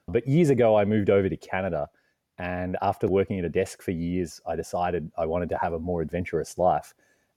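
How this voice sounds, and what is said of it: Australian accent. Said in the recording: “I'm originally from Australia. You can tell by the accent”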